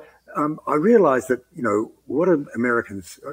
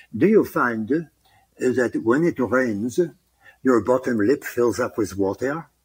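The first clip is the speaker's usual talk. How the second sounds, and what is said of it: Put-on French accent. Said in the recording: “when I do a French accent, I have a little thing that I do ... So that's how I get the French.”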